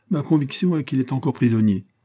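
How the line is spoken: Cried out. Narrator (French): s'écria William Boltin

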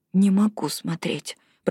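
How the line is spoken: Whisper. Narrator (Russian): прошептала Робин

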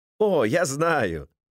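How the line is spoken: Laughing, hasty addition. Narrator (Russian): Незнакомец рассмеялся и поспешно добавил

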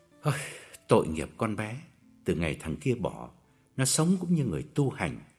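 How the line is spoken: Low, sorrowful voice. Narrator (Vietnamese): Ông chớp mắt hạ giọng bùi ngùi

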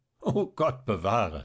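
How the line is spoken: Laughing. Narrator (German): lachte der Regierungsrat

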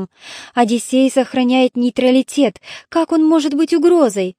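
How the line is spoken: Sighed. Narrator (Russian): Гекуба вздохнула

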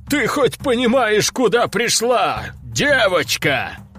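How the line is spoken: Laughing loudly. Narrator (Russian): расхохотался тот

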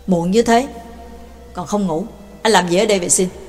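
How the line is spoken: Cold question. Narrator (Vietnamese): Bà Tàng lạnh lùng hỏi

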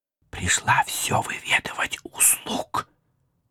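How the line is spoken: Quiet whisper. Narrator (Russian): Александра Ивановна, шепнув мне тихо

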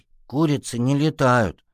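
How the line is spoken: Kitten's offended grumble. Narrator (Russian): обиженно буркнул котенок

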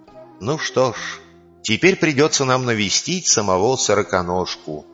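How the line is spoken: Sighing. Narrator (Russian): вздохнул кабан

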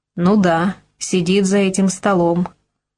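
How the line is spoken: Amused snort. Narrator (Russian): хмыкнул Кабрин

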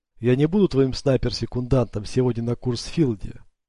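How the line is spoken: Plain. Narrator (Russian): ответила лейтенант

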